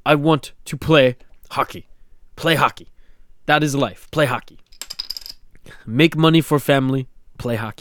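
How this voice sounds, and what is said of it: Put-on Russian accent, simple English. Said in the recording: “Why am I doing a Russian accent? ... I just think of the simplicity of Malkin's English.”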